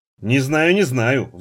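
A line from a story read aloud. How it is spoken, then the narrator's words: Sighed. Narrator (Russian): вздохнул Виталий Иванович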